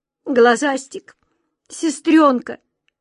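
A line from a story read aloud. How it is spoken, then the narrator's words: Sobbing cry. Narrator (Russian): рыдая, крикнула Ниточка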